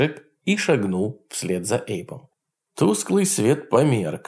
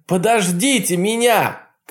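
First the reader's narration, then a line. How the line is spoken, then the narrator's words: Shouted. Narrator (Russian): крикнул он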